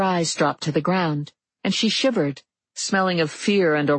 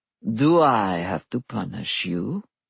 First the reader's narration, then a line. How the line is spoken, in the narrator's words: the Lord of Night purred